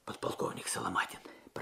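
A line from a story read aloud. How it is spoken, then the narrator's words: Whisper. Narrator (Russian): прошептал Алексей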